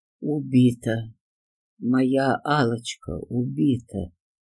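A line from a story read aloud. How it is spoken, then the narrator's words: Deadened, lifeless voice. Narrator (Russian): Каким-то мертвенным голосом произнес Алексей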